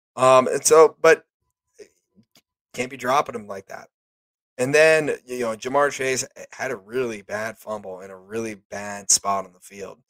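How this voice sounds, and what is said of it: Hoarse, partly lost voice. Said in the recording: “I'm sorry if my voice is still a little gone. I'm trying. ... my voice was really, really gone. It's kind of coming back. It's getting there.”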